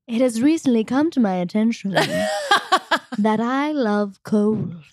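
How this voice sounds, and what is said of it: Chloe Sevigny impression. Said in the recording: “that impression is that that's not what she talks like at all. ... But like somehow it is.”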